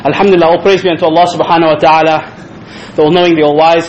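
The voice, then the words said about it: Out of breath, winded speech. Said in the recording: “I to run up, so I'm a bit out of breath. I'm not fit actually”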